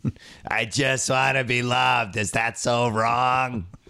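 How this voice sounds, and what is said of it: Imitates another person's voice. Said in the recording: “sound like Harvey Firestein... Or John Lovitz as Harvey Firestein... That was his imitation.”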